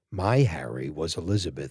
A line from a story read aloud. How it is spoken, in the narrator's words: she sighed